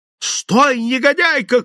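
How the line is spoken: Shout. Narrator (Russian): кричал он

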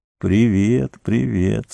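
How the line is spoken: Weak voice. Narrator (Russian): слабым голосом произнес он

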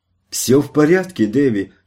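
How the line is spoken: Shout. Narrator (Russian): крикнула она

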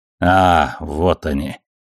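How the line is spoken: Irritated grumble. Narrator (Russian): раздраженно буркнула Авасарала

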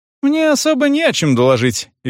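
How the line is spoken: Cheerful. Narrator (Russian): весело сказала она

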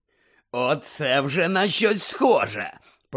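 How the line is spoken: Growled. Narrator (Ukrainian): прогарчав голос Муді

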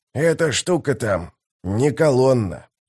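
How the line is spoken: Old man's hoarse rasp. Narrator (Russian): прохрипел старик

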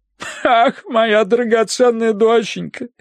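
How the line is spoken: Sobbing. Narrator (Russian): рыдала она

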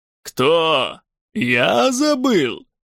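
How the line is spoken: Laughing heartily. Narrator (Russian): захохотал Грендель, ничуть не обидевшись

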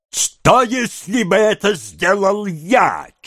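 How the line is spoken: Nearly yelling. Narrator (Russian): чуть не завопил Феджин

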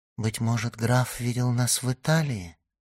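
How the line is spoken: Timid. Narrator (Russian): робко сказала Валентина

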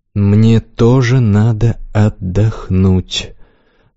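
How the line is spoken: Slow speech. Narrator (Russian): сказал медленно

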